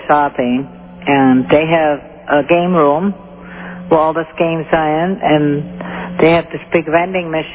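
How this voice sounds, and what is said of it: Slight German accent. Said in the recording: “I detect a bit of an accent. ... Where are you from originally? Germany? ... Germany. Yes.”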